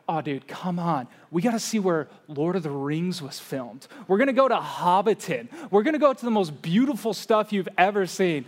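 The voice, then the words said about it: Intense voice imitating a friend. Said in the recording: “my impersonation of him, is an intense guy”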